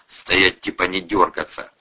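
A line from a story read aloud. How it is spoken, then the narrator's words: Growl. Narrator (Russian): зарычал Атасов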